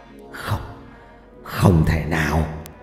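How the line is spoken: Mutter. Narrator (Vietnamese): Ông thầy Trà miệng lẩm bẩm

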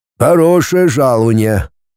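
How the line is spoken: Gloomy. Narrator (Russian): мрачно проговорил Агафон

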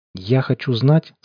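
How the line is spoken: Tense voice. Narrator (Russian): сказал я напряженным голосом

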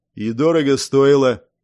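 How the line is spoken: Deep bass voice nearby. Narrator (Russian): пробасил кто-то рядом

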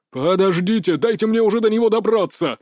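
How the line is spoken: Angry roar nearby. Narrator (Russian): гневно взревел где-то рядом режиссер

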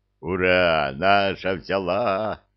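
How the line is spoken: Joyful roar, troll. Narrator (Russian): радостно взревел тролль

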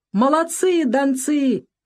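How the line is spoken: Cheerful shout, commander. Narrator (Russian): весело кричал командир полка

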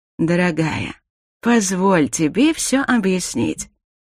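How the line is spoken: Tender. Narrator (Russian): ласково произнес Дарил

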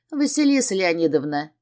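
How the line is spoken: Burst out laughing. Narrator (Russian): не выдержав, захохотала я

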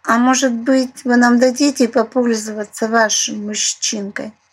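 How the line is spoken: Heavy sigh, then hopeful. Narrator (Russian): Она тяжело вздохнула и вдруг с надеждой произнесла

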